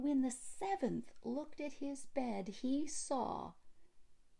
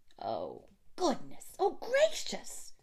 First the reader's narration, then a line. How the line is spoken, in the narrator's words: they cried